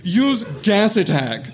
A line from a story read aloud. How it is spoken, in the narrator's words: shouted James